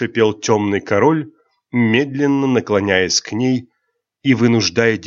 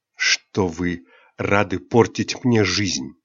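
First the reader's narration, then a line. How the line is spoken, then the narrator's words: Breathless trembling whisper. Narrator (Russian): шепотом ответила Айрин, потому что, едва его лицо оказалось так близко, ее голос предательски пропал, а все тело охватило странная дрожь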